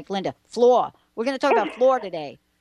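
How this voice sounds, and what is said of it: New York accent. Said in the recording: “let me hear my New York accent”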